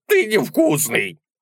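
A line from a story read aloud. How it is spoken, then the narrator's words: Offended troll reply. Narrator (Russian): ответил тролль обиженно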